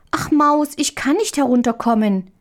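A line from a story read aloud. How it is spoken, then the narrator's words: Child calling out. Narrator (German): rief die kleine Marie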